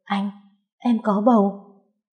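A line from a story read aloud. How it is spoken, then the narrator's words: Dazed trembling question. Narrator (Vietnamese): thất thần, run rẩy hỏi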